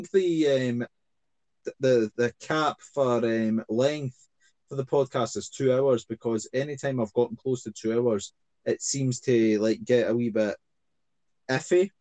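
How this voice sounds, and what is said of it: Scottish accent. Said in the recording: “my Scottish accent”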